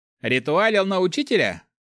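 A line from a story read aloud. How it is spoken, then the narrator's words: Snorting young man. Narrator (Russian): хмыкнул парень с бледной кожей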